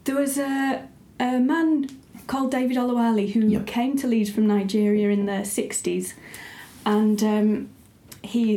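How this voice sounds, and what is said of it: Put-on posh accent. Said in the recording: “putting on my posh voice”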